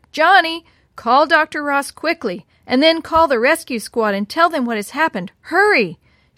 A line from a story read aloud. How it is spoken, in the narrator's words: Mother shouted